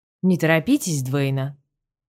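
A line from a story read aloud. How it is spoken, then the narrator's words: Calm even voice. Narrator (Russian): Ровным голосом ответил Салливан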